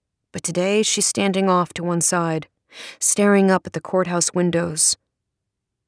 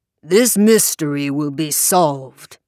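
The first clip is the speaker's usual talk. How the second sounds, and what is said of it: Bellowing Southern preacher voice. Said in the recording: “bellowing from the podium now, giving his best impersonation of a Southern Baptist preacher getting really worked up”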